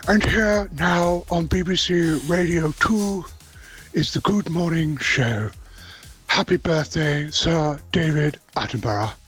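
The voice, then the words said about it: Imitates another person's voice. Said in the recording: “I can do his voice”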